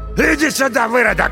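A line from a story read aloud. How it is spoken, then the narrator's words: Man shouting. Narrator (Russian): лысый закричал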